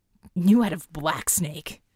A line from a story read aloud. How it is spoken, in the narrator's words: Alex hissed, taken aback